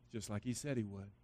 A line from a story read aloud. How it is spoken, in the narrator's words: A clean-shaven, younger man said softly but firmly